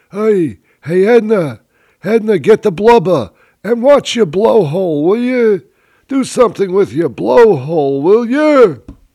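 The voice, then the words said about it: Elderly Florida Jewish accent impression. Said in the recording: “my impression of a Florida Jew”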